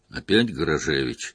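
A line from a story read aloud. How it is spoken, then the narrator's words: Displeased grumbling. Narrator (Russian): недовольно заворчал Виктор Алексеевич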